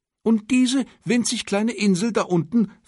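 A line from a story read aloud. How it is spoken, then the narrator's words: Excited question from emperor. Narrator (German): fragte der Kaiser aufgeregt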